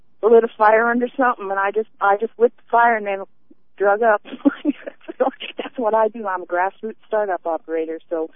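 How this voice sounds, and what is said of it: Foreign accent. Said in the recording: “I talk funny. I have a foreign accent”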